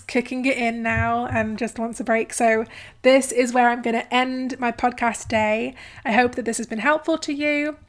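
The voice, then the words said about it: Hoarse, tired voice. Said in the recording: “my voice is going a bit hoarse, but I've been recording podcasts all day”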